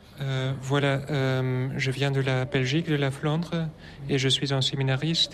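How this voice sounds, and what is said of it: Slight foreign accent in French. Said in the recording (French): “Vous avez un léger accent.”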